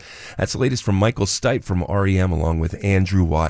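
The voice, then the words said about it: Voice affected by a cold. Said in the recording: “fighting a cold this morning. You probably hear it in my voice. ... Pardon my voice.”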